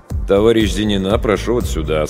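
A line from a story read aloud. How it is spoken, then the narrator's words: Plain. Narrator (Russian): сказал врач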